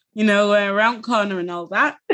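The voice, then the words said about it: Exaggerated northern Yorkshire accent. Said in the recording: “you've also got an accent as well, which sounds northern ... That's me putting on a little bit more for you ... the vowel sounds give it away that I'm Yorkshire”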